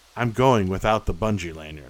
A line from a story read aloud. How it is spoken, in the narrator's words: said